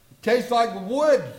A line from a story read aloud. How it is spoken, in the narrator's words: he gasped